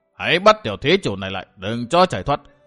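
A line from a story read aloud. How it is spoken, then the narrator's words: Loud shout. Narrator (Vietnamese): quát lớn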